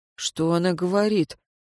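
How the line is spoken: Quiet question. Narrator (Russian): негромко спросил Шамис у надзирателя

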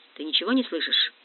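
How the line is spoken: Close many-voiced whisper. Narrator (Russian): Шепот, близкий, многоголосый шепот

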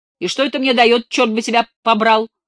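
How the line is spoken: Furious yelling. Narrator (Russian): В ярости заорал он

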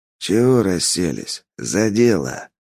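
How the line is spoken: Quiet. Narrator (Russian): Тихо сказал

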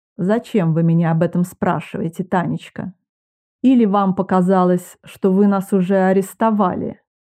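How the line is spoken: Gentle reproach. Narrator (Russian): Мягко пожурил он меня

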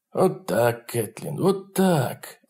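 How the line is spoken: Soft gentle speech. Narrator (Russian): мягко говорил Джонни

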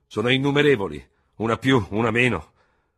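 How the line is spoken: Thundered, general. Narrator (Italian): tuonò il generale Ferò

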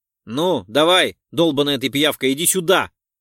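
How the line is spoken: Shout. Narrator (Russian): выкрикнул я

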